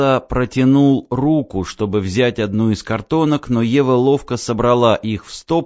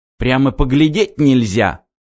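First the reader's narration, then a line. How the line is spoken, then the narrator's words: Snort. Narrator (Russian): фыркнул Вакса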